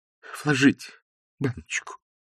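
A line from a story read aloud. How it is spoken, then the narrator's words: Timid babbling. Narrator (Russian): пролепетал Остап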